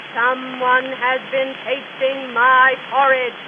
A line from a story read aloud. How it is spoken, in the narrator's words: said the great, huge father bear in his rough, gruff voice